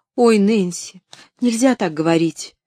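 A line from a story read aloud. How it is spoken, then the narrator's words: Frightened exclamation. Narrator (Russian): испуганно воскликнула Поллианна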